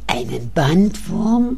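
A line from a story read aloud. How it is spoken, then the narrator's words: Groaning. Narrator (German): stöhnt Frau Müller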